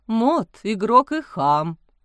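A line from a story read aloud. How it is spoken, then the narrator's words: Gloomy. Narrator (Russian): мрачно сказал отец Амвросий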